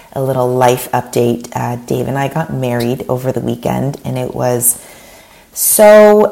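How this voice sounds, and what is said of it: Raspy voice. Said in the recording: “raspy radio voice ... nursing a little bit of a cold”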